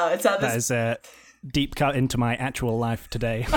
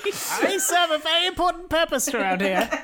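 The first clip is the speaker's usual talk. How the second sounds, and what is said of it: Put-on character voice. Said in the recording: “Character voice.”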